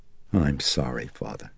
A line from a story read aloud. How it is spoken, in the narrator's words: Chris murmured